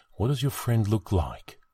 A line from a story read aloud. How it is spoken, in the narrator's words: Lowering his voice, he asked